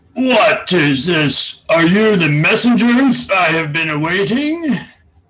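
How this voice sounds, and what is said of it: Gruff orc character voice. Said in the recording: “in an orcish voice”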